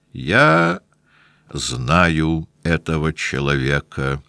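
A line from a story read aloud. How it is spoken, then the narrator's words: Measured cold intimidating voice. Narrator (Russian): мерным холодным голосом, очевидно рассчитанным на то, чтобы испугать Пьера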